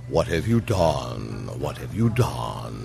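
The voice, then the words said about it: Impression of John Huston. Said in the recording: “your impression of him ... It's not a bad impression”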